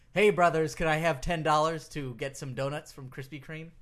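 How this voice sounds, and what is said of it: Imitates another person's voice. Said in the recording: “my Hogan impression”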